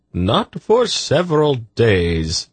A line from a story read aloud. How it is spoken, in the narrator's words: Zadi chuckled